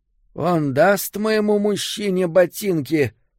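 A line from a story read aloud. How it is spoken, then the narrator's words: Hoarse woman's question. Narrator (Russian): спросила женщина своим хриплым голосом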